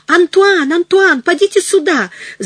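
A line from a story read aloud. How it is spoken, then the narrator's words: Shout. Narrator (Russian): закричала она старику-управляющему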